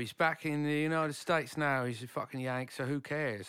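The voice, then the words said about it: British accent like Nigel Tufnell. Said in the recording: “You sound like Christopher Guest. ... Nigel Tufnell. ... your sexy British accent”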